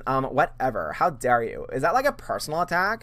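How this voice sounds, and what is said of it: Valley Girl voice. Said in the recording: “do you like my Valley Girl? ... my Valley Girl impersonation? ... my impression of”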